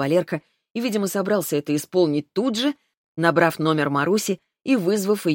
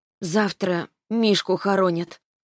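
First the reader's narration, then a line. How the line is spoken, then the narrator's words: Hesitant. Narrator (Russian): начала она неуверенно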